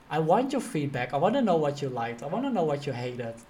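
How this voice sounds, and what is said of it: Dutch-accented English. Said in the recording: “you with your Dutch accent”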